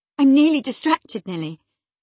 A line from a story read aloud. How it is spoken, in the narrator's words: she exclaimed